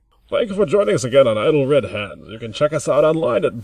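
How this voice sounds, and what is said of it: Bane voice drifting into announcer. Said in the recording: “I could do it as Bane ... Bane's kind of got like more of an English accent ... You did kind of fade into like announcer there a little bit ... I was actually going Australian for a second there by accident”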